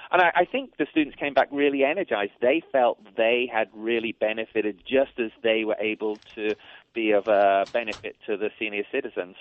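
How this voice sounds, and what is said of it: English accent. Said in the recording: “That accent ... I come from near Cambridge in the United Kingdom originally, and then I worked in Dublin, Ireland for 16 years.”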